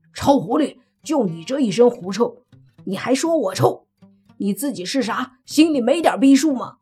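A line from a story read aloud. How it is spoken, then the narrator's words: Angry roar. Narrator (Chinese): 泥巴气得大吼一声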